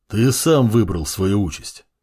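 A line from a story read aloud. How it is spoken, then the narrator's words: Calm bass voice. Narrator (Russian): спокойным басом произнес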